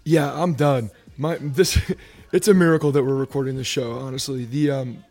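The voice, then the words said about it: Worn-out, hoarse voice. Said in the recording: “your voice is shot.”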